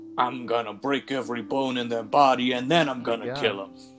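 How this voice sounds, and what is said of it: Imitated Brooklyn accent. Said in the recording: “Mario, first of all, has a Brooklyn accent as played by Bob Hoskins, so he sounds like this throughout the entire film.”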